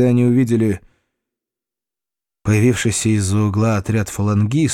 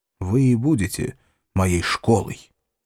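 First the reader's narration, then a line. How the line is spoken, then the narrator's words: Quiet. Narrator (Russian): тихо сказал Хайма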